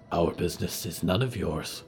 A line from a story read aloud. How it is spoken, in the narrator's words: Yuretsi breathed